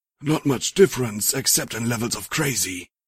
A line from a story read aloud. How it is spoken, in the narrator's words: he muttered